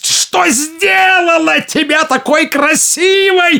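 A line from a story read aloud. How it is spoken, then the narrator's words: Savage furious growl. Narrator (Russian): зарычала она диким от злобы голосом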